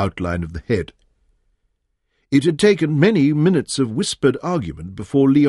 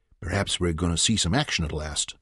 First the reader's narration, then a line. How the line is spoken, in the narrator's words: he murmured